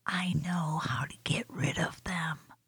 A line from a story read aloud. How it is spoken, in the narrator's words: Sharon whisper to Nicky